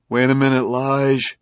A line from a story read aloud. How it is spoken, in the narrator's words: pleaded the commissioner